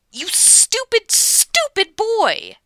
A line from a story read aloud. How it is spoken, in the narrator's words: she snaps